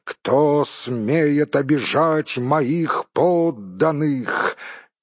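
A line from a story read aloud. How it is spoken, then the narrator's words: Thunderous exclamation. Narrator (Russian): он воскликнул громовым голосом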